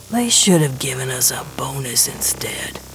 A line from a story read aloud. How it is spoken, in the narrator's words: Gershwin mutters